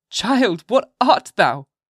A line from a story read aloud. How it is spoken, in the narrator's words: cried the mother